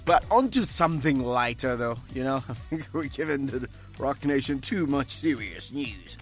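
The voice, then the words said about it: Slips into a put-on accent. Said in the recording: “Is ... that supposed to be your accent? ... You're trying to do a Clover accent? ... I didn't even notice that I went into some accent.”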